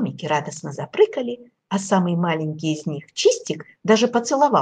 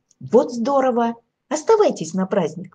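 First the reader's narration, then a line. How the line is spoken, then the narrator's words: Exclaimed. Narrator (Russian): воскликнул Егорка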